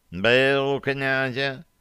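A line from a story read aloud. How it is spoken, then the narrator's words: Lazy question, cat. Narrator (Russian): лениво спросил кот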